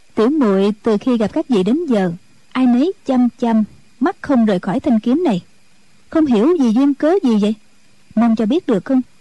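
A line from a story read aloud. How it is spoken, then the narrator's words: Smiling. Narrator (Vietnamese): Triệu Mẫn mỉm cười, nói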